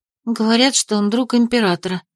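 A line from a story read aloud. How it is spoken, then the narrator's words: Soft whisper. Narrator (Russian): тихо прошептала я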